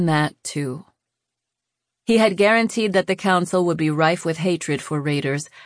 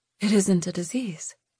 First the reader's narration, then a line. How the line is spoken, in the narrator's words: Lou mumbled, half to herself